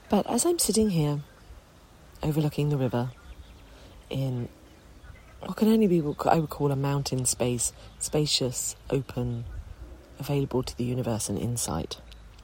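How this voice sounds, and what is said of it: Croaky, hoarse voice. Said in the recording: “I have a little bit of a croaky throat, a very sexy voice”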